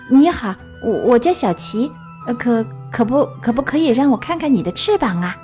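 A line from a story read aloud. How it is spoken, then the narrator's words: Stammering. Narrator (Chinese): 达芬奇结结巴巴地说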